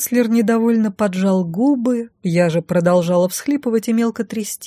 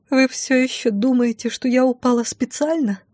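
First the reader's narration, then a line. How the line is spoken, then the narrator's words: Tearful retort. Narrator (Russian): Сквозь слезы бросила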